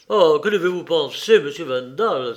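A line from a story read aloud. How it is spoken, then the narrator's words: Exclamation. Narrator (French): s'écria-t-il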